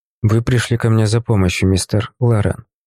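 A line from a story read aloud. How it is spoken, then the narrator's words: Quiet speech. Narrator (Russian): негромко произнес я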